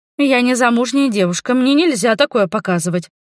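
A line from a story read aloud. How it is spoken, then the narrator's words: Grumbling. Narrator (Russian): проворчала я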